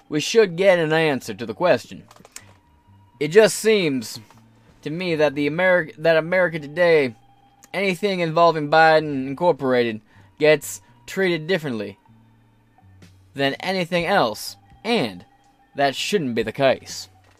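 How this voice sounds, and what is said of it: Put-on Kentucky accent, poorly done. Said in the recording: “How's that for a Kentucky accent? Terrible?”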